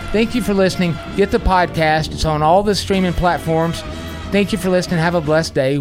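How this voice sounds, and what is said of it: Southern American accent. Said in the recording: “Trust my southern accent.”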